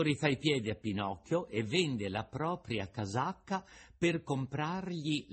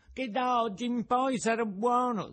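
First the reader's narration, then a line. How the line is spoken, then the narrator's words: Puppet sobbing. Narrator (Italian): disse il burattino singhiozzando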